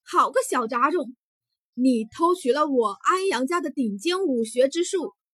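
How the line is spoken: Angry, loud, power-charged. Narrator (Chinese): 安阳青气冲冲 他的声音很响亮，再加上夹带了几分玄力

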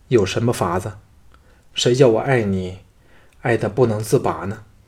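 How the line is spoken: Sighing. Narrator (Chinese): 项少龙叹道

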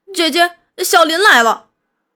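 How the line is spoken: Boy shouting. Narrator (Chinese): 玉华的弟弟小东直嚷

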